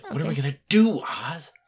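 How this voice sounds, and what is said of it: Scared, loud frantic whisper. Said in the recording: “So it's a whisper ... A little more frantic ... Sound a little more scared ... Scared and loudly whispering.”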